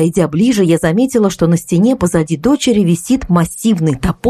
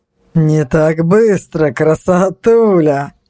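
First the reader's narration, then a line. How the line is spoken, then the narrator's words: Amused snort. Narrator (Russian): хмыкнул Игорь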